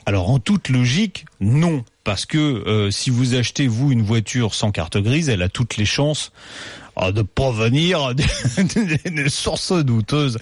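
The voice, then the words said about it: Exaggerated silly put-on accent. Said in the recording (French): “cet accent ridicule”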